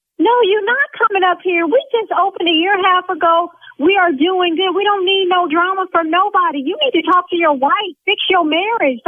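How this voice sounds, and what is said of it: Yelling angrily. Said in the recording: “See now I'm yelling.”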